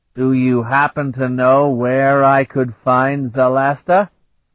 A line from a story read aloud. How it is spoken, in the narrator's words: Vanyan asked in a dreadful voice